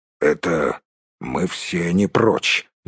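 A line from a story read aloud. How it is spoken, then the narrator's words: Muttering. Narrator (Russian): буркнул Торин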